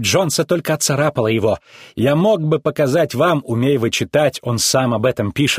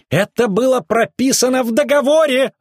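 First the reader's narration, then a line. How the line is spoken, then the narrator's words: Shrill shout. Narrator (Russian): выкрикнул визгун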